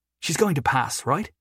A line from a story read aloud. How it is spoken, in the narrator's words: Jory asked nervously